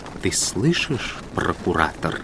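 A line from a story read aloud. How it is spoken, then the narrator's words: Quiet. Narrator (Russian): тихо повторил первосвященник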